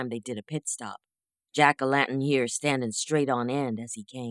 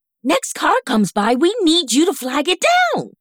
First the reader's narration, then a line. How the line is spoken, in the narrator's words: she yelled